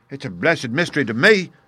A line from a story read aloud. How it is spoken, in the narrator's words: cried Pycroft